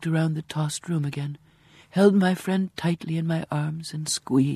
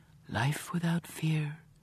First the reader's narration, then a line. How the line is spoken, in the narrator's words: whispered